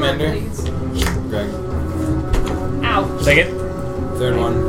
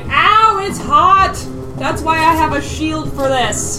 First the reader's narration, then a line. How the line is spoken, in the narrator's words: it burns like the armor gets white hot all of a sudden, and you hear just a scream like